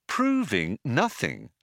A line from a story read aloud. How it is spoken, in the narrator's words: said Ford